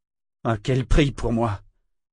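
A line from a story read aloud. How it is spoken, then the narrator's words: Sorcerer moaning. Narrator (French): gémit le sorcier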